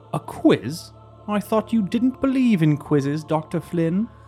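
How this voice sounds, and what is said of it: Sharp British accent character voice. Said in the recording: “A familiar voice with a sharp British accent piped up”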